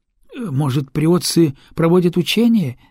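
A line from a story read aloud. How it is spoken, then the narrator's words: Uncertain helmsman's guess. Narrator (Russian): неуверенно предполагает рулевой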